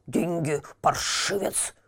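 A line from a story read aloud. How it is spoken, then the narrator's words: Short man hissing. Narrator (Russian): шипел низенький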